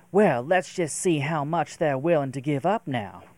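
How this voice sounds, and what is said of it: Poor put-on Southern US accent. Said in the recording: “this southern U.S. accent ... that was a terrible accent ... maybe it sounds a little bit more Louisiana, which I just can't do”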